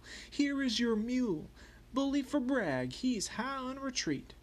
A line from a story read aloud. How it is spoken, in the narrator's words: the soldiers would raise the yell